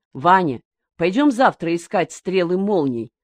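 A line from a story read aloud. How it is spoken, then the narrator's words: Plain. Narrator (Russian): сказал Миша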